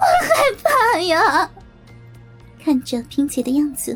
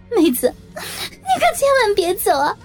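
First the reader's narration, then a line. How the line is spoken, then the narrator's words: Crying, pleading. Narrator (Chinese): 萍姐哭着说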